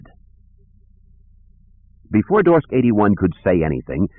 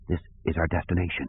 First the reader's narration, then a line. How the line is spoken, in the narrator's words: Kip whispered